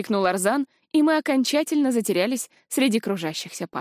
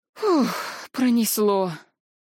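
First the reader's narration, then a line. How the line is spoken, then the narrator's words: Relieved exhale. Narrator (Russian): выдохнула я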